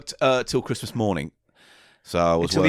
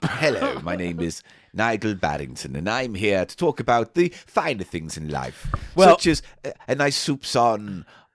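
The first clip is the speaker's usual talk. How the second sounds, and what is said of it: Posh character voice. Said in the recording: “doing a posh voice for ... my new character”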